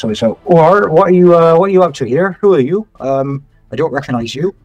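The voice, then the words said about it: Guard character, West Country accent. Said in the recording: “in his guard voice, which I believe for the people of Skigvors is a sort of West Country accent.”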